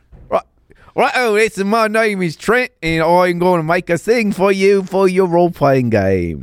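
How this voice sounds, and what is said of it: Put-on Australian accent. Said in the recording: “give me your best Aussie accent. Here comes a British accent. ... It was pretty good when you said Trent. Sounded very Australian.”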